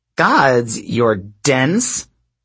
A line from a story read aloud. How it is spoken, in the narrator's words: Drew sneered